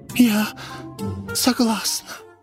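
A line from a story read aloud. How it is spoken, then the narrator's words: Whisper. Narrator (Russian): Милашка прошептала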